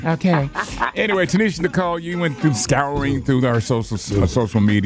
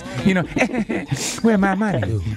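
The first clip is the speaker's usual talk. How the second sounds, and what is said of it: Exaggerated 70s pimp voice. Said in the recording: “why you sound like a 70s pimp ... when I do that voice”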